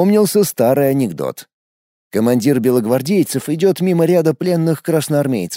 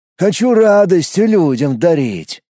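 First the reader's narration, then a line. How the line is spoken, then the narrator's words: Sigh. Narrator (Russian): Вздохнул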